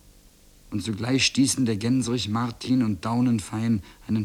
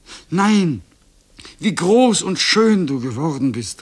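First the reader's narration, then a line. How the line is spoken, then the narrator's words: Exclaimed. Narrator (German): rief sie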